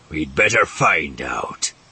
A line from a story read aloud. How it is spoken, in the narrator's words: Zothip grunted